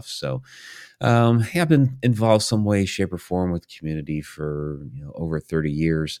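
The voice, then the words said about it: Scratchy, strained voice. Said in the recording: “my voice is a little scratchy here ... I'm trying to strengthen it back up after the weekend”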